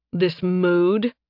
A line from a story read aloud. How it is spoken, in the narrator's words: Nathan growled